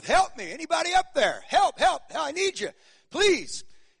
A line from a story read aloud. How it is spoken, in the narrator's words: he started just yelling for all of his worth